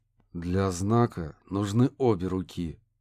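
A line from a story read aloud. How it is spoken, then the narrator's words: Through clenched teeth. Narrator (Russian): процедил сквозь сжатые зубы Курт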